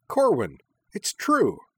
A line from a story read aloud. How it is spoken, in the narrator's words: cried Minami cheerfully